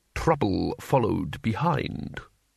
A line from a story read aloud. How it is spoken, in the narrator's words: lowered his voice